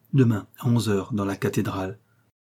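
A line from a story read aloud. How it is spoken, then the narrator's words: Curt tone. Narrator (French): d'un ton bref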